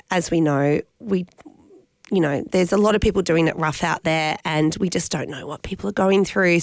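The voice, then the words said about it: Hoarse, congested voice from a cold. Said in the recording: “this head cold ... my voice maybe will come back as well ... I lost my voice”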